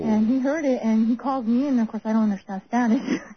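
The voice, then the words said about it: Slight Spanish accent. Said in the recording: “I hear a little bit of an accent there, a Spanish accent ... you picked up an accent ... you do have an accent”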